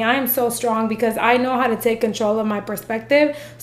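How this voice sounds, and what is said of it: Sick-sounding voice. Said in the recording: “you can hear it in my voice. Like, I'm sick right now.”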